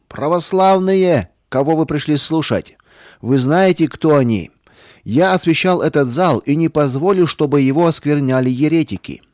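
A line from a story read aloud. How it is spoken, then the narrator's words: Priest, loud. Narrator (Russian): священник громко сказал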